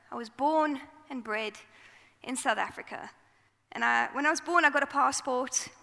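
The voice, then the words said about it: South African accent. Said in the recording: “From my accent, if you don't know me, I am from South Africa.”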